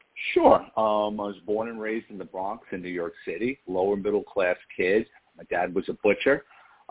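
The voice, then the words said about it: Light New York accent. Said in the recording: “I think I hear a little bit of that New York accent coming through in your voice... I thought I heard a little New York accent.”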